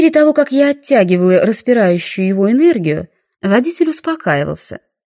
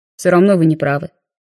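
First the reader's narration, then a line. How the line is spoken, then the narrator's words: Calmer reply. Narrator (Russian): более спокойно ответил он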